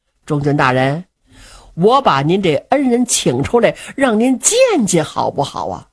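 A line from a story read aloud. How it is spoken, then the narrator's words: Laughing. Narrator (Chinese): 张公瑾笑了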